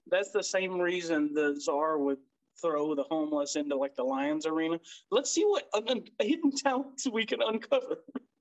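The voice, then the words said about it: Imitates another person's voice. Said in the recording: “Why does your czar have a Christopher Walken accent?”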